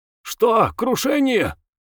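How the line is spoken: Yelled. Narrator (Russian): заорал

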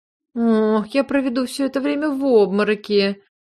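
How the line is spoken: Gloomy, fearful declaration. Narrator (Russian): заявила мне мрачно, добавив, что до ужаса боится высоты

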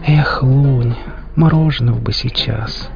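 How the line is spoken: Dreamy sigh. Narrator (Russian): мечтательно вздохнула Хип

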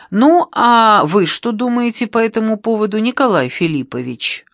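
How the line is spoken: Loud question across room. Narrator (Russian): Громко на всю комнату спросила географиня Руфина Аркадьевна

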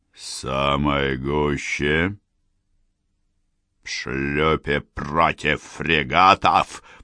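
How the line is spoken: Near growl. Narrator (Russian): почти зарычал Андерсон

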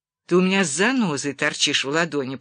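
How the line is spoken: Grumbling. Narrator (Russian): проворчал Уэксфорд

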